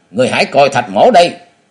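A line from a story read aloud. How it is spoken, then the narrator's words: Loud shout. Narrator (Vietnamese): Thạch Vật quát to lên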